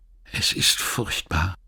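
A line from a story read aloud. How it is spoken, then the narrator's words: Whispering. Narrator (German): Sie flüsterte endlich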